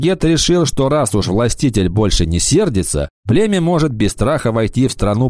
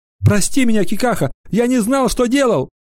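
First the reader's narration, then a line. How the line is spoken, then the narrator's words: Sobbing lament. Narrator (Russian): Юноша, рыдая, запричитал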